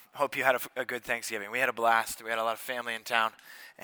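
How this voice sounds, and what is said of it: Slightly hoarse voice from a cold. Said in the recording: “forgive my voice a little bit today ... I feel like I picked up the cold that was going around. I've got a little bit of a throat thing.”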